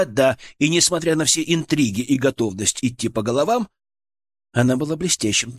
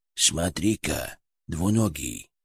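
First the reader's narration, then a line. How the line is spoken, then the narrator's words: Whisper inside the head. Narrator (Russian): прошептал у меня в голове Ферк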